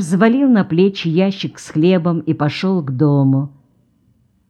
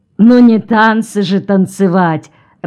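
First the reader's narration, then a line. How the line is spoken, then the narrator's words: Loud laughter. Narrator (Russian): расхохотался Бровин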